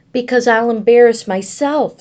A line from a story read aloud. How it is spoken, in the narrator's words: said Evan